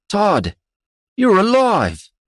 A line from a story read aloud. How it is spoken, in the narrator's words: Jodul cried out